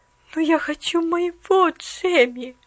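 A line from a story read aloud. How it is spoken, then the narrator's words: Sad murmur. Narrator (Russian): грустно пробормотала она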